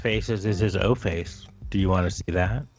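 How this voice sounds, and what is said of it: Creepy voice. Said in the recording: “Why did you say that in such a creepy voice?”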